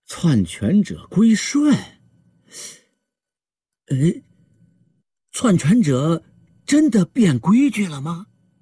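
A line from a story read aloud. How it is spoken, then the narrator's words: Murmuring. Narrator (Chinese): 公爵喃喃说道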